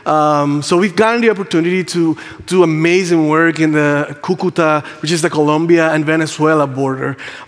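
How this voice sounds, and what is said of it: Puerto Rican Spanish accent in English. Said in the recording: “if you can't tell by my accent, English is not my first language. Um, I'm Puerto Rican.”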